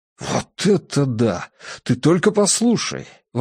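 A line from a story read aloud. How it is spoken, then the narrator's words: Excited exclamation. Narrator (Russian): воскликнул Фентрис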